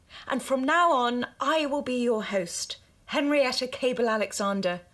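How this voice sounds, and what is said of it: Put-on sophisticated posh accent. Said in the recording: “Don't you like my accent? Doesn't this sound so sophisticated and on the level? ... Isn't this a voice you can trust?”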